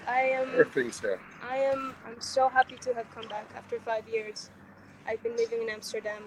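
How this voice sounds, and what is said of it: Lovely foreign-sounding accent. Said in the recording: “you came from Amsterdam ... Look at that lovely accent now”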